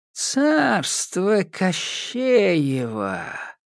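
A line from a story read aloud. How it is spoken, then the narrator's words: Thoughtful drawl. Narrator (Russian): задумчиво протянула Яга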